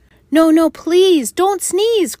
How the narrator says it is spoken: cried the monkeys in the trees

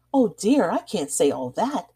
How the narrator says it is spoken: said his companion with a laugh

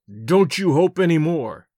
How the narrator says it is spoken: I growled

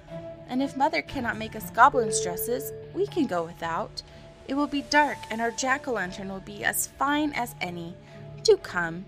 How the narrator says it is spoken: she begged

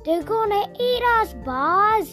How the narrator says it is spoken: Woody yelled

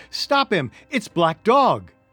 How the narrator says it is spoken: I cried

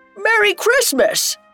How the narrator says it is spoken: a shout of

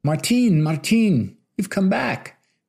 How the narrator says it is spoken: cried the deliriously happy and very pretty woman

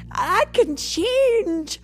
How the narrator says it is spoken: Scrooge cried

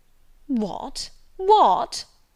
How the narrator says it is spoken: he cried

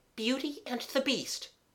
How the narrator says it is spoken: A voice said, in a breathless, choked way

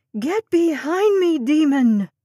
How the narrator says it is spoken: Sapphire screamed

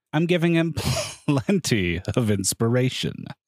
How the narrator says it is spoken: he added with a chuckle

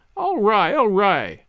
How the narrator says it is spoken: laughed Sally

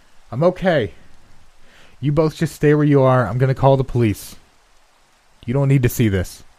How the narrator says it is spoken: my dad called out

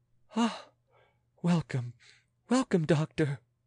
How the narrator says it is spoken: said the royal lady in a feverish voice

